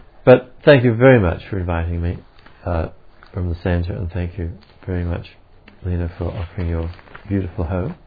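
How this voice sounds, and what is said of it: Australian accent. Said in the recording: “the boring old Australian accent”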